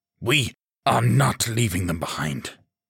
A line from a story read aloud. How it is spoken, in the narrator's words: he snarled